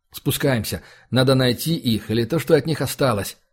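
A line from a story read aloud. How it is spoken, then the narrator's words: Plain. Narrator (Russian): сказал Влад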